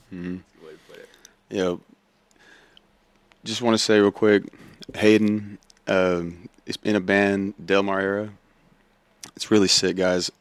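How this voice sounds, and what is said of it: Hoarse, strained voice. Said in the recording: “excuse my voice, I'm losing it”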